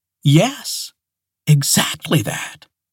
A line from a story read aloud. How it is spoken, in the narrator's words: she gasped